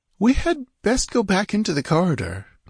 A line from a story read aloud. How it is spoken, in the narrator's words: Natala ventured nervously